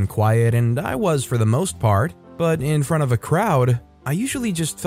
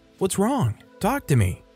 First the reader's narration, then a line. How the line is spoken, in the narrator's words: said softly